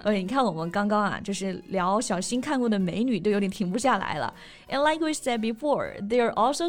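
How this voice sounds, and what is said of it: Usual voice. Nothing is said of it.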